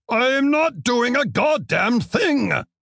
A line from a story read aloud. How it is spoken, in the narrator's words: Ocampo yelled